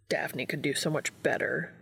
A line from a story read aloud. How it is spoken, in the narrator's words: he grumbled